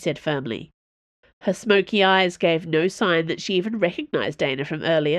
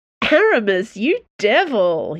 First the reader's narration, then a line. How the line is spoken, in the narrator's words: said, choking with laughter